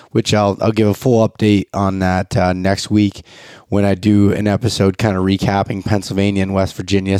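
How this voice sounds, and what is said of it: Unwell-sounding voice. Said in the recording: “I apologize for my voice. I've been sick”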